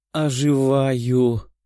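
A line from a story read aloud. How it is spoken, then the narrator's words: Contented purr. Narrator (Russian): Довольно промурлыкала она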